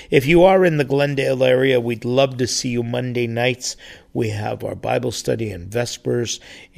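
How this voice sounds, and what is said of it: Strained, hoarse voice. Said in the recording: “as you can tell from my voice, it's still going through a little period of difficulty, but strained vocal cords”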